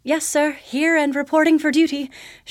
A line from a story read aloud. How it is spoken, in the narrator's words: she replied nervously